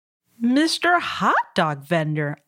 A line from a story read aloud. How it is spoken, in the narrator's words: Amu exclaimed